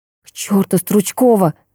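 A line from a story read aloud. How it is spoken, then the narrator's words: Exasperated exclamation. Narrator (Russian): воскликнула я в сердцах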